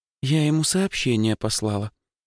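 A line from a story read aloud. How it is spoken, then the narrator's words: Gloomy sigh. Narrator (Russian): вздохнула мигом помрачневшая Лёлька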